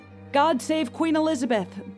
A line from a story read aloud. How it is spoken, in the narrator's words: the frazzled executioner shouted